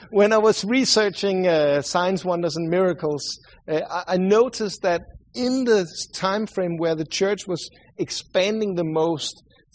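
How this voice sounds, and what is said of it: Swedish-sounding accent. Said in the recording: “sorry for my accent. I know I sound like the Swedish cook from the Muppet Show.”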